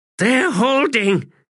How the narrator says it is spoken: she gasped

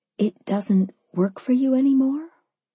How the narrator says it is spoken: I breathed, not daring to believe it

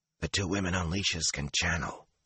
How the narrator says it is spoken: he whispered

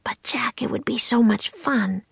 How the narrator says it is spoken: she whispered

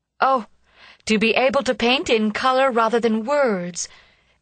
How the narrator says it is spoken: exclaimed Miss Mayblunt, losing herself in a rhapsodic dream

